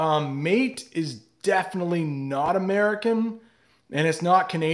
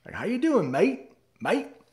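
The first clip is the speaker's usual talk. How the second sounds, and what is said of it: American attempting Australian accent. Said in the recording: “if any American tries to do an Australian accent, they will throw in mate ... That's definitely Australian.”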